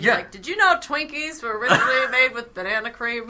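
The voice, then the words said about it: Poor imitation of another person's voice. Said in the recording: “that's a terrible Mark Summers impression.”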